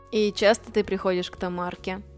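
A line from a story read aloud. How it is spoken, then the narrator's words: Hoarse drunken man. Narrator (Russian): прохрипел мужик своим нетрезвым голосом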